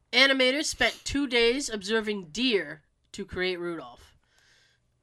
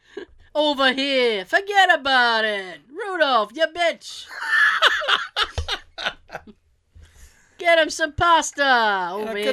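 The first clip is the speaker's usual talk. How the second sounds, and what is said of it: Put-on Brooklyn accent. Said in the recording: “The narration originally had a Brooklyn accent.”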